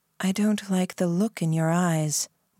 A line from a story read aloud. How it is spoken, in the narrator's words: the Baron said, his voice quiet